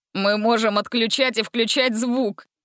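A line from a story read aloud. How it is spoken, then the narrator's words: Laughing. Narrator (Russian): рассмеялся Ганзель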